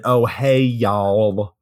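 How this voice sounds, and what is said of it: Fake over-enunciated Southern accent. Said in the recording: “fake ass Southern accent... Like over enunciating everything.”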